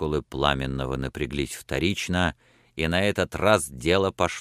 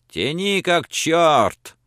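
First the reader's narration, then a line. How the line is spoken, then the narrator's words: Skeptical shout. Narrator (Russian): Француз Луи, скептически поглядывавший на него, крикнул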